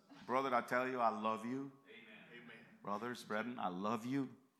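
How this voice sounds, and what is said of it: Central American accented English. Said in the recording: “please forgive my southern accent... I live in Central America... I have a worse accent”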